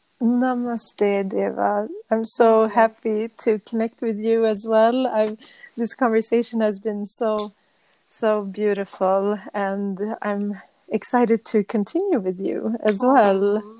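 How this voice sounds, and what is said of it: Swedish accent. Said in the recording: “I love your accent. I love the Swedish accent. ... I think it's one of the best accents.”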